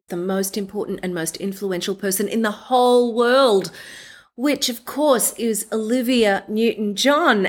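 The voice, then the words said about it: Australian accent. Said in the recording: “our accents match... double Aussie”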